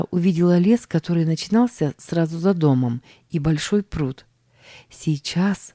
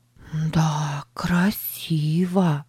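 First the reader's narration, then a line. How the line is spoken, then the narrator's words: Whisper. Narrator (Russian): прошептала она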